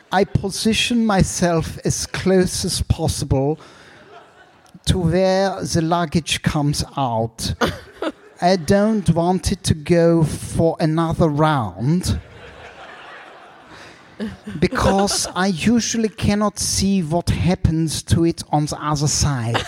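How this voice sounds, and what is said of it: Impression of a man from Berlin. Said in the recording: “this is Till from Berlin. So I'm going to do a very accurate impression.”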